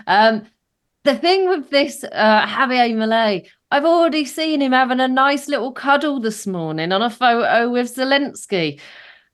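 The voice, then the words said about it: Crackling, strained voice. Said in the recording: “if my voice keeps crackling”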